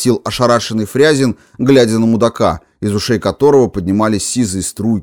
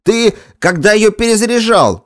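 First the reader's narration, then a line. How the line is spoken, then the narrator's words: Barked. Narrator (Russian): рявкнул на сержанта Лагутин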